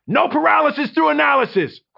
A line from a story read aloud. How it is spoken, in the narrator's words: Quincy shouted